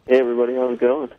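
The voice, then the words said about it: Low seductive bedroom voice. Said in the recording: “in his bedroom sexy voice.”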